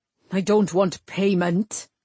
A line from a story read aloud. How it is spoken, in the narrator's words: Cullen snarled